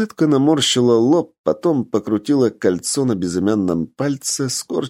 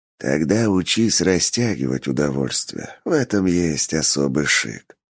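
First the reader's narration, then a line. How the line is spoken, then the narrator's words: Whispered. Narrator (Russian): прошептал Ричард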